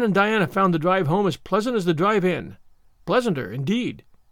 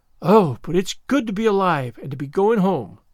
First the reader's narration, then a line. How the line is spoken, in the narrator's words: breathed Anne